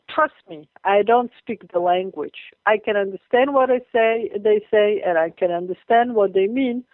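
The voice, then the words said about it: Hebrew-accented English. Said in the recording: “you get my accent here, you can hear that I speak Hebrew”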